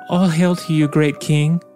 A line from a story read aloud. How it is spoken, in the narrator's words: answered the girl in a gentle, trembling voice